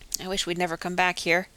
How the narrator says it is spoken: Jack muttered

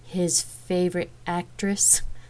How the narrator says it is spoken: Rain asked with a laugh, surprised by the comment

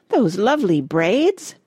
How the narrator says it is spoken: exclaimed Miss Pearl

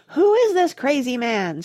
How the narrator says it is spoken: screamed Grandma Josephine

